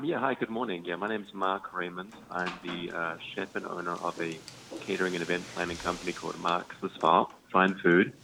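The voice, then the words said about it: Slight New Zealand accent. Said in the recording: “I'm originally from New Zealand. I'm still hanging on to my accent here a little bit”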